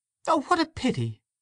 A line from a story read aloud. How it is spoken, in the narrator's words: she cried